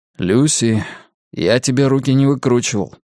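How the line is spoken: Grim reminder. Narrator (Russian): мрачно напомнил он

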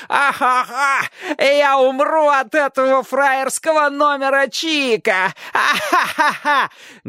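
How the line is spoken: Forcing words through laughter. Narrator (Russian): говорил он, как бы с трудом продавливая слова сквозь смех

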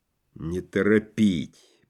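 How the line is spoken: Whisper. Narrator (Russian): прошептал Клим Ворошилов, член Реввоенсовета

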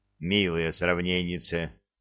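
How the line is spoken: Grumbled. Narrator (Russian): проворчал я

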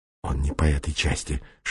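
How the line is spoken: Whispering reply. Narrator (Russian): шептал в ответ Бастрыкин

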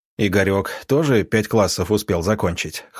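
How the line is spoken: Snorting. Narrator (Russian): хмыкнул доктор

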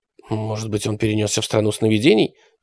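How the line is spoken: Muttered. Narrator (Russian): пробормотала Алиса

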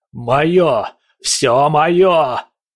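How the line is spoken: Roar in alien voice. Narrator (Russian): проревел он голосом, который явно принадлежал не ему

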